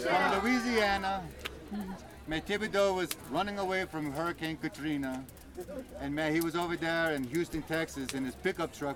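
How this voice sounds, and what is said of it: Put-on Cajun accent. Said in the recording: “I can tell it to you in my Cajun accent”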